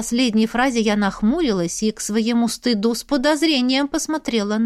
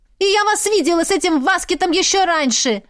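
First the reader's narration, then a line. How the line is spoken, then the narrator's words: Shouting. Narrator (Russian): кричала Мирель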